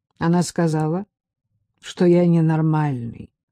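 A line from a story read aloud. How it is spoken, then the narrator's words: Unhappy voice. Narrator (Russian): ответил Саша несчастным голосом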